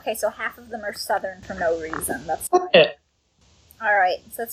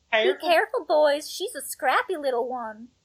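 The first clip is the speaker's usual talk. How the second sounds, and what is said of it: Put-on Southern US accent. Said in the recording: “Can I do a southern accent?”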